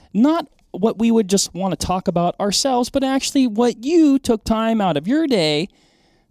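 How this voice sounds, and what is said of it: Stern dad voice. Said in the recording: “You're full on dad voice right now. ... I'm fighting you just with my tone.”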